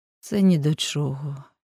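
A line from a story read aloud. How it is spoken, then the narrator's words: Sigh. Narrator (Ukrainian): зітхнув Адріан Сінглетон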